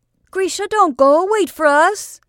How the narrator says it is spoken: shouted

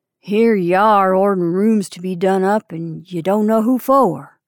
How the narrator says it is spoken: added grimly

